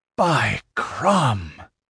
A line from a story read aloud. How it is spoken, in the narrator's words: he said with a deep sigh